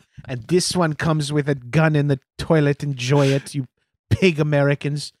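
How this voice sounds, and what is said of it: Put-on Dutch accent. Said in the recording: “Is that a Dutch accent? ... doing a Dutch accent”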